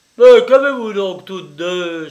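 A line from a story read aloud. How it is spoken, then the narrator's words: Exclaimed. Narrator (French): s'écria Rogron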